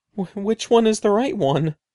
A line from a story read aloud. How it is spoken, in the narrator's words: stammered